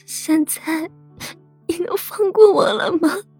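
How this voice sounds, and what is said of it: Quiet, choked, pained voice. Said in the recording (Chinese): “几经哽咽，才痛苦的小声道”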